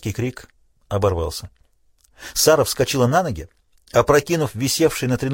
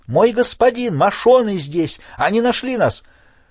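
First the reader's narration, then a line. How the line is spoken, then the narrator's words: Shout. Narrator (Russian): она закричала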